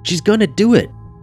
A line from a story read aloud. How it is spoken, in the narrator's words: Lisa shouted